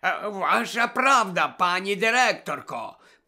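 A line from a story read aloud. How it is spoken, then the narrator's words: Hiss. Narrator (Ukrainian): прошипів Філч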